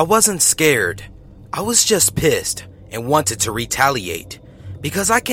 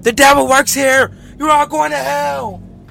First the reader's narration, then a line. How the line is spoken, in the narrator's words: yelling